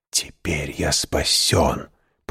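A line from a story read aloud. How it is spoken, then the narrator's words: Whisper. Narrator (Russian): прошептал он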